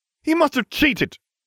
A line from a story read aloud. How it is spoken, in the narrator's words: Draco Malfoy cried